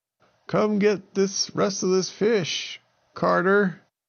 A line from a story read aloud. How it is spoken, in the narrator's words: called out and said